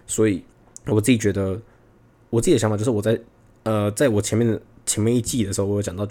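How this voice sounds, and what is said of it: Authentic Taiwanese Mandarin accent. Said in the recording (Chinese): “我这个口音不是 mainland 口音，就是我觉得台湾人的口音是太好辨认的 ... 我的口音也算是很很 authentic 台湾的那种感觉”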